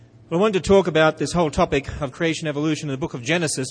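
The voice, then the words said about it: Australian accent. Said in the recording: “with an Australian accent ... speaks like Crocodile Dundee”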